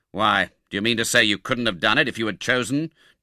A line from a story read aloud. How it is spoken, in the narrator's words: demanded Monks sternly